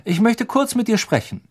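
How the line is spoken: Called out. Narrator (German): rief Lupin

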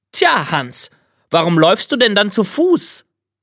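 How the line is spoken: Called out. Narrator (German): hielt an und rief

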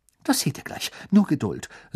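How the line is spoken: Excited. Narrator (German): sagte Hermine aufgeregt

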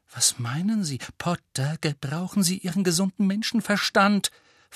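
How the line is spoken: Hissed sharply. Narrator (German): fauchte und war sofort wieder ganz die Alte

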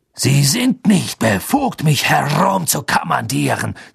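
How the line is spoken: Hiss. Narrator (German): zischte Snape

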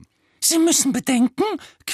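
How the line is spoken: Small squeaky voice. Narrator (German): quiekte der kleine

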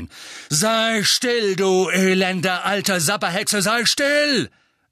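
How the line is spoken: Thundered. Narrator (German): donnerte er

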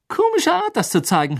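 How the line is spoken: Mocking. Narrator (German): höhnte Ron

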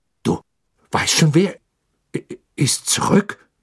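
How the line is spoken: Stammering. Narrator (German): stammelte er schließlich

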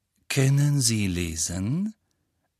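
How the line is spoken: Laughing. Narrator (German): Draco Malfoy lachte

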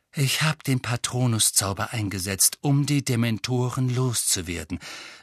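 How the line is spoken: Forced calm. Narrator (German): sagte er und zwang sich, ruhig zu bleiben

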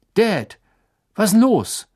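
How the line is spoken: Calling into the darkness. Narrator (German): rief er durch die Dunkelheit

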